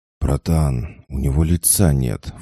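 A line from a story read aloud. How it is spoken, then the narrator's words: Breathed out. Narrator (Russian): выдохнул Илюха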